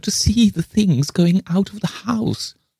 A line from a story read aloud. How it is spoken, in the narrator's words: wailed the other